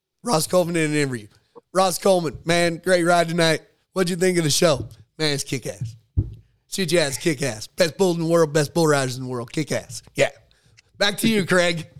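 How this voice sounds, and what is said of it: Ross Coleman imitation. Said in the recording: “I used to do a Ross Coleman imitation. Ross Coleman in an interview.”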